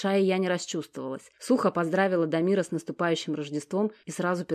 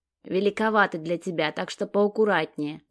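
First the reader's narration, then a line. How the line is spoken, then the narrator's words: Displeased grumble. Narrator (Russian): недовольно проворчал Дамир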